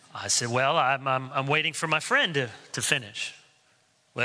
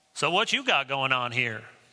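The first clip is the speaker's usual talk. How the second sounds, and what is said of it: Attempted North Carolina accent. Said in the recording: “I can't do a very good, authentic North Carolina accent”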